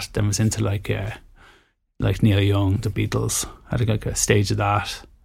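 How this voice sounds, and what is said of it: Irish accent. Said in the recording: “you're from Ireland, like the accent gives it away a little bit”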